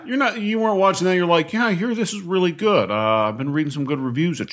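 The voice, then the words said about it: Impression of a co-host's voice. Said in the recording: “I'm trying to do a Dan impression.”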